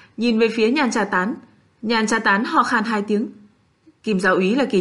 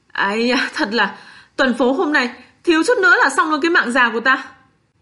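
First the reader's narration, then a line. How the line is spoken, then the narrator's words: Panting, shaken, loud. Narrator (Vietnamese): Trương Long thở hộc mấy hơi xong mới trưng ra cái vẻ mặt chưa hết hoảng hồn, cao giọng nói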